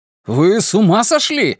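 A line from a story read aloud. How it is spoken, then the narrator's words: Shouting. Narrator (Russian): закричал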